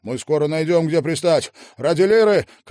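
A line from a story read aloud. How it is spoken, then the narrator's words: Shouted reply. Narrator (Russian): крикнул он в ответ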